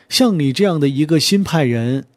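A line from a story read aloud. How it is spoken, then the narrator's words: Laughing. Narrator (Chinese): 刘苏笑道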